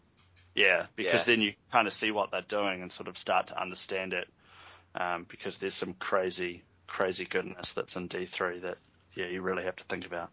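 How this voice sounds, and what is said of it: New Zealand accent. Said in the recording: “the Kiwi accent is not very good”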